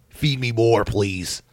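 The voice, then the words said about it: Bad Ryback impersonation. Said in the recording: “That's a really bad impersonation, I know.”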